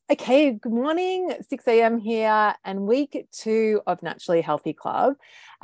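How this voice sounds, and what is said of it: Slightly out of breath. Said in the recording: “Just did my kettlebells, so I'm like, oh, a bit out of breath.”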